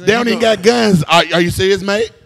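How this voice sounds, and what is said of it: Put-on English or Australian accent. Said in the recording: “You got an English accent? ... That's Australia.”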